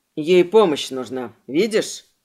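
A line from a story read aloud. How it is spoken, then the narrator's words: Snorting. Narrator (Russian): Фыркнули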